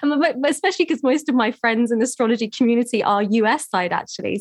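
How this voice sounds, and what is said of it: English accent. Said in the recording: “I'm here in England, which is where I'm from, as you can hear by my accent.”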